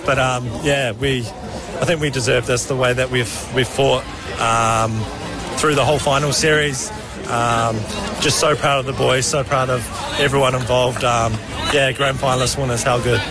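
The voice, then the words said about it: Exhausted, worn-out voice. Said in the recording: “You can hear in my voice, I've got nothing left”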